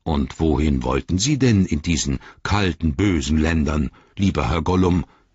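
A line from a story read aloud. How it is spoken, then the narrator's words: Growling. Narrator (German): knurrte er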